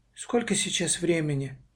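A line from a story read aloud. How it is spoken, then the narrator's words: Quiet question. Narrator (Russian): тихо спросила Маша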